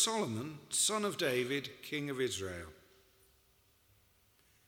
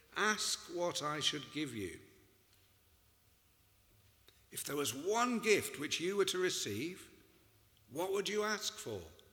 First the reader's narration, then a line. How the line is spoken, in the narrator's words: says the Lord